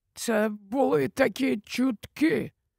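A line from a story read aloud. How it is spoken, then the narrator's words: Whispered. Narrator (Ukrainian): прошепотів Олівандер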